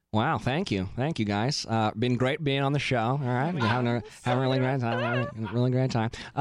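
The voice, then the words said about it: Impression of Nick Viall. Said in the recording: “your Nick Viall impression? ... Do you want me to do all the thank yous in Nick Viall?”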